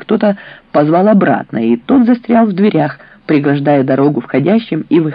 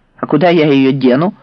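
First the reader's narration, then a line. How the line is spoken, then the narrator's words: Snapping retort. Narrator (Russian): огрызнулась Люцина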